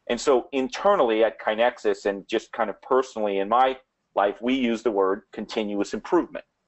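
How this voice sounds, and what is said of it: New Orleans accent. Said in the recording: “my New Orleans accent”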